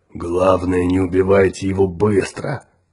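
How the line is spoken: Growled. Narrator (Russian): прорычал Тикар

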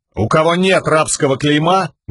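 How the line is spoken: Loud address to all. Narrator (Russian): громко сказал Каладин, обращаясь ко всем

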